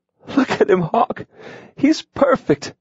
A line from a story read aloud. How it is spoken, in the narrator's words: Adrian exclaimed